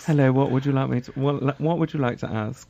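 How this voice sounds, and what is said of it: British announcer voice. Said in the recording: “my British announcer voice”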